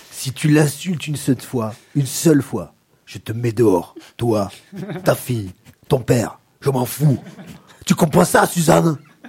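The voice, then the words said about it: Put-on regional French accent. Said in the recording (French): “Ils ont l'accent comme ça dans le Jura?”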